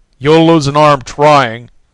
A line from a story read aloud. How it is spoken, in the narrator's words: snapped the dog